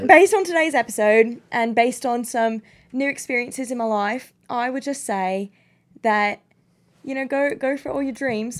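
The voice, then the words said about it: Put-on British accent. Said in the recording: “Do it British. ... In an accent.”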